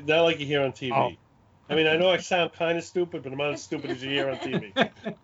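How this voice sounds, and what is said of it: Brooklyn accent. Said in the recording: “this is a real Brooklyn accent. I was born in Brooklyn and raised in Brooklyn.”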